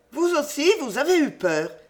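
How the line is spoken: Exclaiming. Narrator (French): s'écria-t-elle

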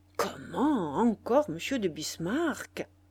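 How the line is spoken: Murmur. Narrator (French): murmura Fauchery

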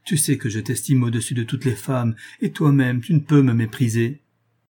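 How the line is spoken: Exclaiming. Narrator (French): s'écria Julien

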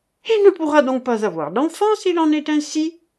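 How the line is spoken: Dismayed exclamation. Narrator (French): s'écria le duc

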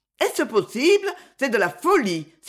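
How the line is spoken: Exclaimed. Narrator (French): s'écria Madame Duchélanes

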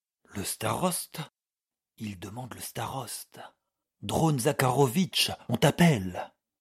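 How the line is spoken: Several voices, quick and low. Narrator (French): dirent vivement et tout bas plusieurs voix

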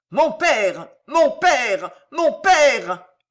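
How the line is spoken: Desperate scream. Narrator (French): hurla Pardayan

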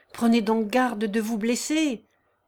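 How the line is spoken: Involuntary exclamation. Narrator (French): s'écriait involontairement Émile

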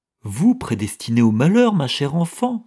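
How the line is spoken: Exclaiming. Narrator (French): s'écria-t-elle

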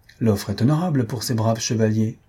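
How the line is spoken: Sneering laugh. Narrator (French): dit Ferragus en ricanant

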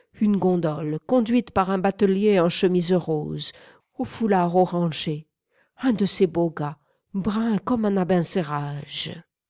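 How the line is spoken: Exclaimed. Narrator (French): s'écria Manet

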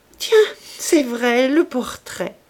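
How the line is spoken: Laughing. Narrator (French): dit en riant

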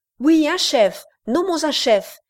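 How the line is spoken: Crowd shouting together. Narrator (French): s'écrièrent à la fois grands et petits

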